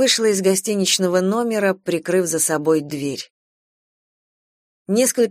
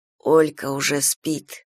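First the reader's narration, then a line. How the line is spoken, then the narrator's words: Muttering. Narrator (Russian): пробормотал Филипп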